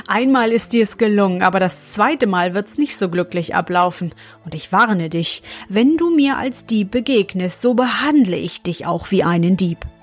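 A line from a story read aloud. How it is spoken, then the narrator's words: Laughing, then spoke. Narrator (German): Der Graf musste lachen, dann sprach er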